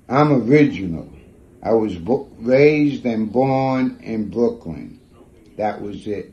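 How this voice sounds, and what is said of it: Brooklyn New York accent. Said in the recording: “this is how my accent is”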